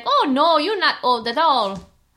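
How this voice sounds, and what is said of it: Put-on Chinese accent. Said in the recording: “my driver was Chinese again. It's like the only accent I can do.”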